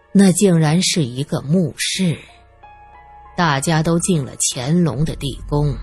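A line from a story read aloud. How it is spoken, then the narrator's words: Sighing. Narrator (Chinese): 鲁奇叹了口气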